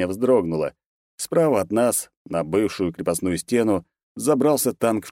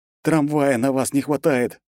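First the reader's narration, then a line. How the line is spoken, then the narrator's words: Angry hiss. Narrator (Russian): зло прошипел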